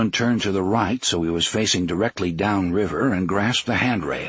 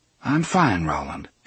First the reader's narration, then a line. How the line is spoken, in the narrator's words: she said calmly